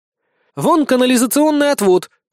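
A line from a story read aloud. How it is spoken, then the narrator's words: Exclaiming. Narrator (Russian): воскликнула Безос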